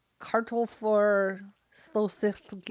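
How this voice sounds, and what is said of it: Mock Danish-sounding gibberish accent. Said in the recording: “That's just a really good Danish accent ... That's just German coming out”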